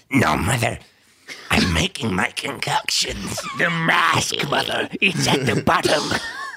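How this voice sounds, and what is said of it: Small childlike warlock character voice. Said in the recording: “you sounded like a little tiny baby warlock.”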